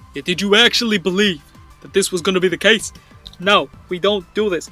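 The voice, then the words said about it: Character voice with New York accent. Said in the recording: “His voice is going all sorts in New York at this point. Now it's like Bernie or something.”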